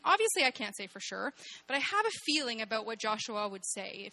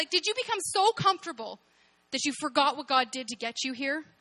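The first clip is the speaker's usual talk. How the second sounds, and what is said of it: Angry scolding mom voice. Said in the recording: “it would come in angry mom voice. I'm pretty sure it would be angry mom voice.”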